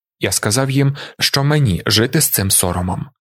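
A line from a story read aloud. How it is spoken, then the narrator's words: Plain. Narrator (Ukrainian): відповів Талінар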